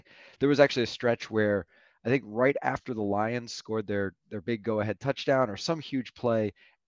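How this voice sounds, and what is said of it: Slightly hoarse voice. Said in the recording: “my voice a little hoarse. I lost my voice a little bit cheering”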